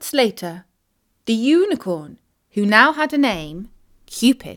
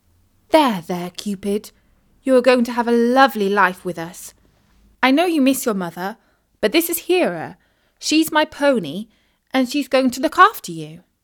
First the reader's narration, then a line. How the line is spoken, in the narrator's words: Isis said soothingly